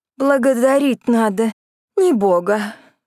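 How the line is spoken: Labored, hoarse, breathless speech. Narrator (Russian): с трудом выговорила между двумя хриплыми вдохами

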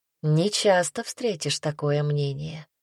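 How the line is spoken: Soft remark. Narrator (Russian): мягко заметила Рина

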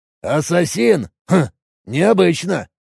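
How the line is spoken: Scoffing grunt. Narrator (Russian): хмыкнул Роджер

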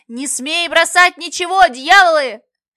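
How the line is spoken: Shouting through megaphone. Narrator (Russian): Брандмейстер, приставил ко рту медный рупор и кричал направо и налево

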